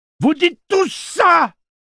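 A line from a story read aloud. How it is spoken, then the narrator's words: Shouted. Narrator (French): lui cria-t-elle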